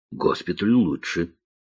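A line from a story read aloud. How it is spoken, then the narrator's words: Grumble. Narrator (Russian): буркнул вице-маршал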